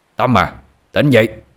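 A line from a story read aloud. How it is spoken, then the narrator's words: Loud shout. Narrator (Vietnamese): chính danh quát lớn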